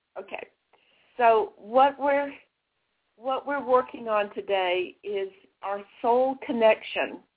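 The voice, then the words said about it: Voice going, slightly hoarse. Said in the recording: “I'm losing my voice a little bit.”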